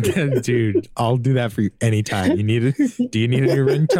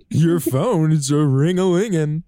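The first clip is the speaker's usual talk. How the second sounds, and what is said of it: Poor imitation of another person's voice. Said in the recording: “not a good Eddie Murphy impression ... There's no semblance of Eddie Murphy in that impression ... It's so far removed from Eddie Murphy”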